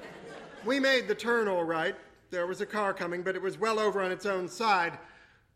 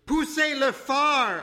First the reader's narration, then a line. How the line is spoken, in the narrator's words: shouted